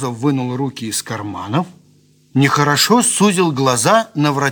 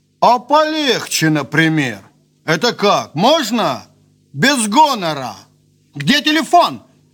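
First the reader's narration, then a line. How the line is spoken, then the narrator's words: Shout. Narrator (Russian): крикнул Солодовников, сам удивляясь своей нахмуренности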